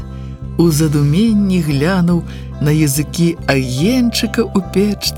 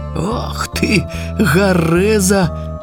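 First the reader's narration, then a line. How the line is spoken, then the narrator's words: Old man's laugh. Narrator (Belarusian): засмеялся дядуля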